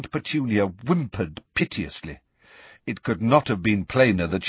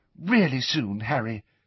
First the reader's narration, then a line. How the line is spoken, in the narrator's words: said Hermione earnestly